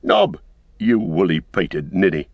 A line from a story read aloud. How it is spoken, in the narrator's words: he cried